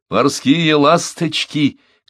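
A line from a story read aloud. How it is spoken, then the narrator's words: Shouted. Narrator (Russian): крикнул Миани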